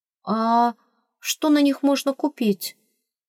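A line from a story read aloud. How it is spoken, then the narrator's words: Bewildered question. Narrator (Russian): спросила растерянно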